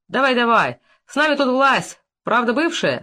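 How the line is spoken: Colonel laughing. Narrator (Russian): засмеялся полковник

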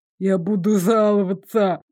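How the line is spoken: Lisping, openly threatening man. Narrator (Russian): Шепелявя, с нескрываемой угрозой повторил мужчина

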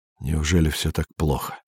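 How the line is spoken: Dejected question. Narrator (Russian): спросил Андрей упавшим голосом

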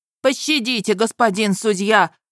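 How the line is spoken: Landowner wailing. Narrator (Russian): взвыл помещик

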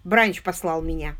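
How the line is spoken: Plain. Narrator (Russian): сказал он

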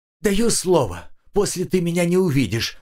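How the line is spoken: Rapid chatter. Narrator (Russian): затараторил Семен Маркович

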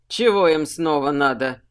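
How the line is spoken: Grumbling. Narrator (Russian): проворчал Сухард

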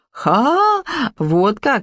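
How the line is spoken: Exclaiming, then laughing cook. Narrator (Russian): воскликнула кухарка и расхохоталась

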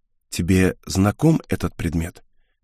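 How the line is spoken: Quiet question, young woman. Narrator (Russian): тихо спросила девушка

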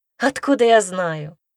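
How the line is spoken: Laughing ghost. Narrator (Russian): рассмеялся призрак

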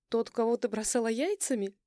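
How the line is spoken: Playful giggle over phone. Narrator (Russian): Она задорно хихикает в трубку

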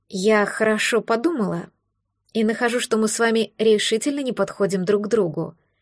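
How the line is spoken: Quiet, slightly frightened objection. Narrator (Russian): тихо возразила, слегка испугавшись столь бурной реакции на ее достаточно вежливую речь

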